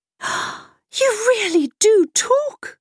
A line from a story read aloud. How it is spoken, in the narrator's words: cried the boy, glad